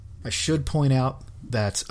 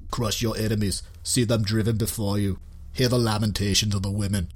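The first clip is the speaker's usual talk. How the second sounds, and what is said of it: Arnold Schwarzenegger impression. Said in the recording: “that was just me doing an impression of Arnold Schwarzenegger. I know it was pretty spot on”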